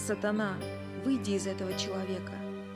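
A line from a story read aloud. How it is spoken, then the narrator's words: Quiet. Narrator (Russian): тихо сказал Билл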